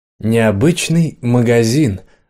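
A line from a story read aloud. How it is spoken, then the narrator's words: Joyful announcer. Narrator (Russian): радостно сообщила дикторша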